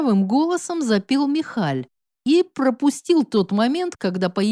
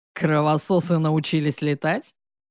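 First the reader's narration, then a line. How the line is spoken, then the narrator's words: Deep bass voice. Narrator (Russian): пробасил Павел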